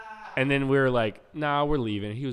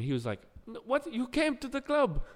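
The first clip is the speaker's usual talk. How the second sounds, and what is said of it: Put-on Nigerian or Jamaican accent. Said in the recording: “I'm doing the same accent for Nigerian and ... Jamaican”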